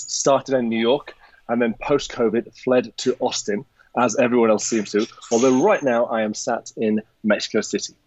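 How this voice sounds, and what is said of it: Non-American accent. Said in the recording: “as you can tell from my accent, I am not originally from America”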